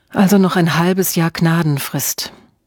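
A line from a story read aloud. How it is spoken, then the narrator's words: Sighed. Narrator (German): Emma seufzte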